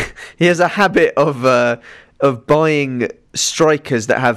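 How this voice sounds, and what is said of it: Usual voice. Nothing is said of it.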